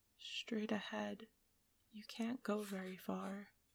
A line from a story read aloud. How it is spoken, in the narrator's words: he added, perhaps a little sadly